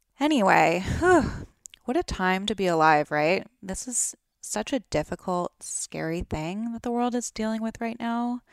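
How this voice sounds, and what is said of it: Groggy, raspy morning voice. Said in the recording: “I kind of have like morning groggy, raspy voice. I'm not sick.”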